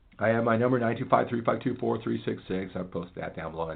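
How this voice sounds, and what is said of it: Says phone number very fast. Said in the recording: “said that really fast”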